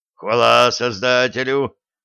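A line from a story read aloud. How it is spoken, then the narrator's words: Relieved exhale. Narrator (Russian): с облегчением выдохнул бортмеханик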